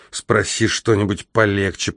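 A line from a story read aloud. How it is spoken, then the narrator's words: Grumbling. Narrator (Russian): проворчал я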